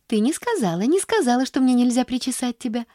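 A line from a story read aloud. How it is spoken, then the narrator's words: Joyful cooing. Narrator (Russian): радостно ворковала она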